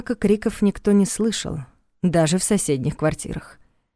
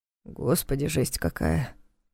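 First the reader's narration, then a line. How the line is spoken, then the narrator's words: Mutter. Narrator (Russian): пробормотал Соболев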